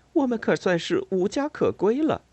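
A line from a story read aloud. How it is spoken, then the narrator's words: Choked with sobs. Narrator (Chinese): 巴贝特哽咽道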